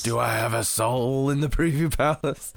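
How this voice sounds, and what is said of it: Grumbly man voice impression. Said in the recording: “my De Niro impression... I'll just do a grumbly man voice”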